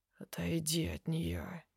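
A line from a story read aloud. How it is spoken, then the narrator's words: Rumbling, unnatural voice. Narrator (Russian): ракочет не своим голосом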